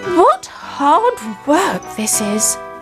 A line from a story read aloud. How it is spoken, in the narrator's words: cried